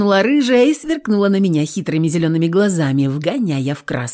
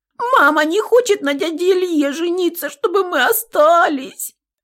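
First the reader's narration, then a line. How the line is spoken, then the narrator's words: Sobbing complaint. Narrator (Russian): Пожаловалась всхлипывающая Нюська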